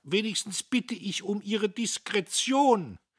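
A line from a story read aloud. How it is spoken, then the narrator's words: Calling after someone. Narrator (German): Diederich rief ihm nach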